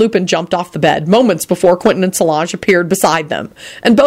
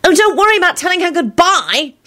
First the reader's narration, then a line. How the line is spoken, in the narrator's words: Solange shouted angrily into the twilight